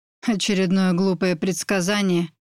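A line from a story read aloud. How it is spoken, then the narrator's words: Mocking question. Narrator (Russian): насмешливо спросил он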